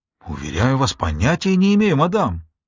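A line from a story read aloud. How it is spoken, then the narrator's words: Horrified exclamation. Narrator (Russian): воскликнула в ужасе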